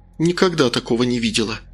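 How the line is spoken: Gloomy. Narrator (Russian): мрачно сказала Рита

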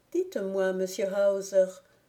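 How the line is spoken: Timid question. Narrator (French): demanda timidement Margrethe

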